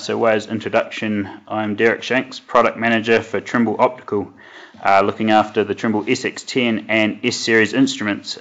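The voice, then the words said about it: New Zealand accent. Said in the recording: “as you might notice from the accent, I'm not from around these parts. I was uh, born and bred in New Zealand”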